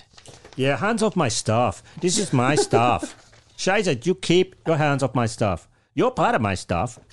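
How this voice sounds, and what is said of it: Put-on German accent. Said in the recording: “I've got the German accent down now. ... That's fantastic.”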